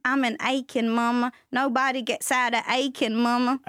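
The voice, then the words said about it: Put-on Southern accent. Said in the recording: “I need you to never do that Southern accent again.”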